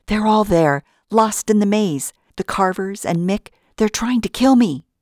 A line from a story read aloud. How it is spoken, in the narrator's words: I panted